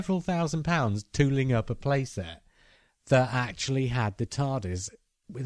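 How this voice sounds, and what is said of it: Usual voice. Nothing is said of it.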